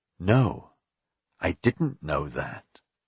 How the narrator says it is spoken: he said slowly

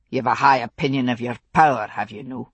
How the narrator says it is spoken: He spoke coldly

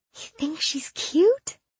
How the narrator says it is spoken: She gasped

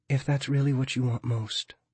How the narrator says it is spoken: she says gently

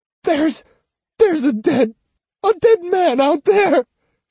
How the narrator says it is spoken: she stammered

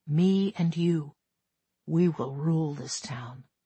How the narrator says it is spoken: Don put his mouth to my ear, whispering

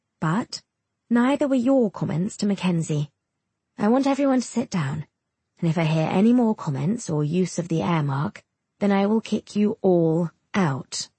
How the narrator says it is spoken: she says firmly, sighing

